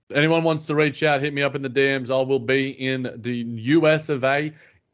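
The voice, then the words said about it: Australian accent. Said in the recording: “this dumb Australian accent ... the Australian accent”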